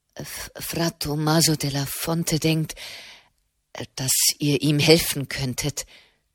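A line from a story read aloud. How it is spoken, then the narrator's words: Stammering. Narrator (German): stammelte er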